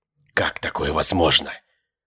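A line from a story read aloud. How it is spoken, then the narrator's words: Whisper. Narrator (Russian): прошептал он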